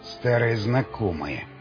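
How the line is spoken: Mutter through teeth. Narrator (Russian): сквозь зубы бормочет ходок

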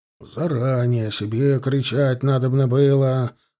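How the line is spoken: Grumbling officer. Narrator (Russian): ворчал пехотный поручик

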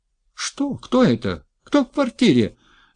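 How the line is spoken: Woman shrieking in alarm. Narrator (Russian): взвизгнула женщина

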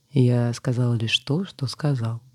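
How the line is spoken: Calm. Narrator (Russian): спокойно произнес охотник

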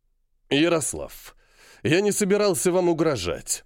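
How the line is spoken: Angry breathed words. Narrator (Russian): зло выдохнул

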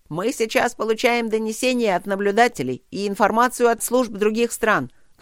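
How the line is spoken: Shouting over broken line. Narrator (Russian): крикнул ему Тедус сквозь прерывающуюся связь

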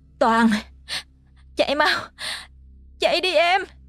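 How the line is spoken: Screaming. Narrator (Vietnamese): Miệng nó kêu thét lên

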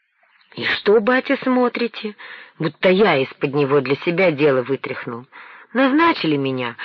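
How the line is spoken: Joyful. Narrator (Russian): радостно сказал Иван

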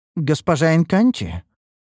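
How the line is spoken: Uncertain. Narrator (Russian): заметила та неуверенно

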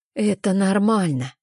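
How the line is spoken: Soft. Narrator (Russian): мягко говорит подруга

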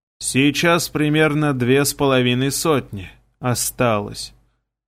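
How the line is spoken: Commander's hollow, muffled voice. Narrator (Russian): глухо проговорил командир

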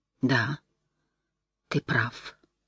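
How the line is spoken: Whisper. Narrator (Russian): прошептала она

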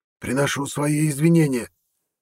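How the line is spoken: Hoarse croak. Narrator (Russian): Хрипло каркнул парень

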